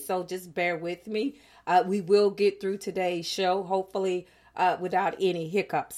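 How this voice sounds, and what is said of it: Slightly hoarse voice. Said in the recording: “I'm a little bit hoarse today”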